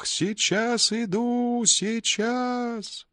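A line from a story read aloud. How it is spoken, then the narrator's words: Desperately loud shout, boy. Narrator (Russian): И мальчик закричал таким отчаянно громким голосом, что у него зазвенело в ушах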